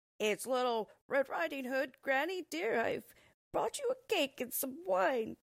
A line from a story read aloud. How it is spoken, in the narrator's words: said the wolf, trying to imitate the little girl's high-pitched, squeaky voice